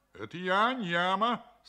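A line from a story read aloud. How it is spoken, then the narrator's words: Stern reply. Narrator (Russian): строго отвечал Ньяма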